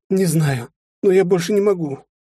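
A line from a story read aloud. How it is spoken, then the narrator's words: Resigned exhale. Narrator (Russian): обреченно выдохнула она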